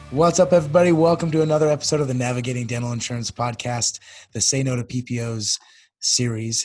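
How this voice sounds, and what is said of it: Hoarse, nearly lost voice. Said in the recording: “as you can hear, I've totally lost my voice ... I'm not convinced. If I didn't have the video, I wouldn't be absolutely sure that was you.”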